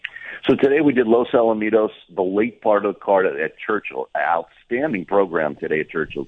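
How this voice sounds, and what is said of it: Strained, unwell-sounding voice. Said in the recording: “get that voice healed up”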